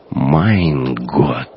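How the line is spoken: Numb-lipped shocked whisper. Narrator (Russian): онемевшими губами прошептал оберштурмбанфюрер

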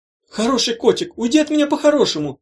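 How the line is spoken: Screamed. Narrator (Russian): завопила Гелата

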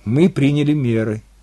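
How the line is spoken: Calm interjection. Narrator (Russian): спокойно вмешалась Ия

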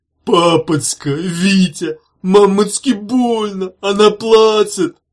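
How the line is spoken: Sudden wail. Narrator (Russian): взвыл вдруг Зиге

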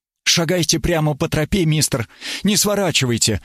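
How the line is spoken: Breathless, agitated. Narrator (Russian): выдохнул взволнованно

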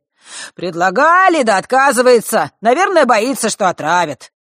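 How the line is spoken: Added with a snort. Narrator (Russian): добавил мужчина, хмыкнув

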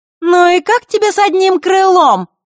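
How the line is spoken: Shout. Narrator (Russian): прокричала Маришка

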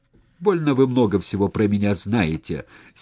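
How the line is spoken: Angry but flustered. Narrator (Russian): сердито, но растерянно сказал Леонидов

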